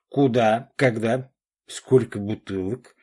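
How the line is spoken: Hearty laughter. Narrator (Russian): Олег от души рассмеялся

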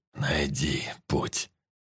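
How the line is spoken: Quiet. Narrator (Russian): тихо сказал сталкер

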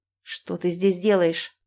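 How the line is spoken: Angry question. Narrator (Russian): зло спрашивает он

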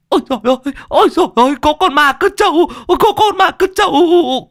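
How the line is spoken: Terrified woman shrieking. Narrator (Vietnamese): Con mụ kia hoảng cả hồn, rú lên

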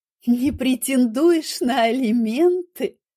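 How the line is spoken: Hysterical laugh. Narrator (Russian): Я рассмеялась, и смех прозвучал истерично

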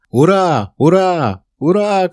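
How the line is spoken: Joyful shouting. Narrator (Russian): кричал радостно Колин

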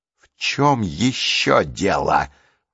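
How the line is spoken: Hissing. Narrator (Russian): прошипела она

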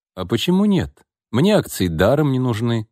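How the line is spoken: Plain. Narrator (Russian): сказал Алексей

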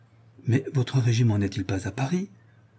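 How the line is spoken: Timid, hopeful question. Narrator (French): fit timidement la pauvre Gabrielle

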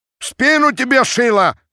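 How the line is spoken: Crowd shouting curses. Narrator (Russian): кричала с бранью толпа

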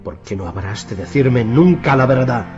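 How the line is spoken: Fierce lament. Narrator (Spanish): se lamentó en tono salvaje

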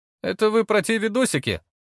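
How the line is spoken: Young man's snort. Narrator (Russian): хмыкнул парень

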